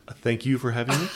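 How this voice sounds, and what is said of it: Polite public-radio announcer voice. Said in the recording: “This is my NPR voice.”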